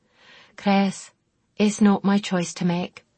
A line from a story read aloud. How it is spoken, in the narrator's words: she answered wearily